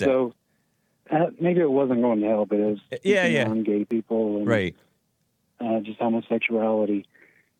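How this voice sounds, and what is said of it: Hoarse, sore-throated voice. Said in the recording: “Sorry for my voice, ... I got a little bit of a bad throat.”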